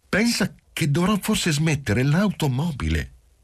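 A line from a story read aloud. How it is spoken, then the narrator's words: Suddenly plaintive. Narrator (Italian): soggiunse in tono improvvisamente lamentoso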